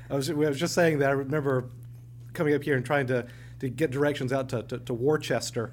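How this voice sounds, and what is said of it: Southern American accent. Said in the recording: “my Southern accent ... a Southern accent”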